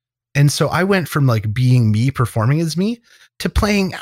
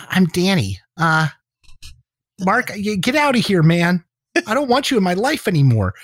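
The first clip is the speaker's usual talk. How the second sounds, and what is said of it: Higher, nasal caricature voice. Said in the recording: “do my voice higher and more nasally ... I became this caricature”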